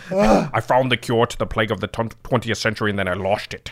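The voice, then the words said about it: Sean Connery impression. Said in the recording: “That's Sean Connery. He's Scottish, right? ... That's my Sean Connery.”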